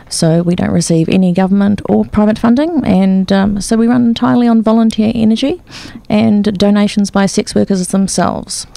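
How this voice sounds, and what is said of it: New Zealand accent, slight twang. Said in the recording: “There was a bit of a twang ... I still sound like a New Zealander”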